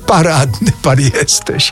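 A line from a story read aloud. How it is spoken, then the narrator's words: Laughing. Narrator (Polish): roześmiał się Mraczewski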